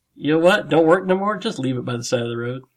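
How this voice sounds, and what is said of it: Put-on Alabama Southern voice. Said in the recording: “That's my impression of Alabama.”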